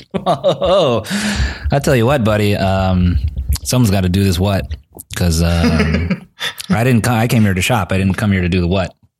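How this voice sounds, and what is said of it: Stereotyped white person voice impression. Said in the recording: “white person impression”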